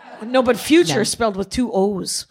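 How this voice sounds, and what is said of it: Strong Midwestern accent. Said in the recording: “my Midwestern accent just popped right up hardcore there”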